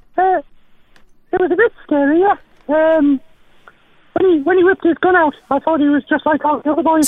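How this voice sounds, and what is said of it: North East English accent. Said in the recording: “You sound a lot like Sarah Millican. ... I've been in the North East for a bit. and my accent hasn't really come back.”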